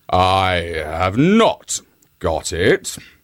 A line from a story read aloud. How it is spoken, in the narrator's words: growled the lion